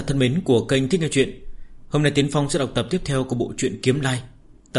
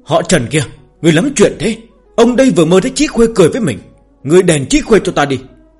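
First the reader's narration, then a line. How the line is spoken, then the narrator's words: Startled, groggy loud shout. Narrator (Vietnamese): Lưu Tiễn Dương mơ màng ngủ nướng giật mình bừng tỉnh, hét ầm lên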